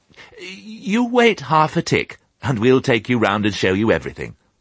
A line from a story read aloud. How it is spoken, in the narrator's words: said the first puppy hastily